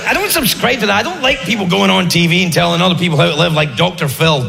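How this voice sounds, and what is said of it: Speaks with a noticeable accent. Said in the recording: “People have a hard time with my accent.”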